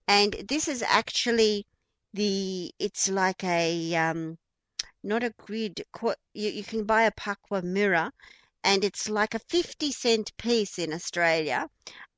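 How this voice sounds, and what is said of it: Australian accent. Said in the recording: “my Aussie accent.”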